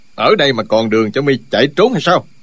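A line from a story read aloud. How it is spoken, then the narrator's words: Barking shout. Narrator (Vietnamese): Chu Trường Linh quát lên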